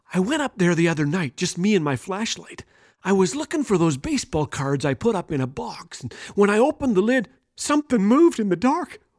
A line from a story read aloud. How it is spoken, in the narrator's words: continued in a soft whisper